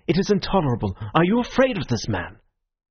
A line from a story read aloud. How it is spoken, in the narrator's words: he cried